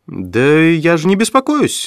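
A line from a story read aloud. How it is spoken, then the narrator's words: Agitated. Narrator (Russian): взволнованно ответила Флорес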